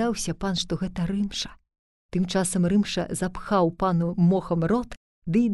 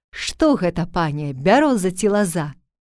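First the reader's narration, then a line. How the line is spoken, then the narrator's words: Boy shouting. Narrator (Belarusian): першы хлапчук крычыць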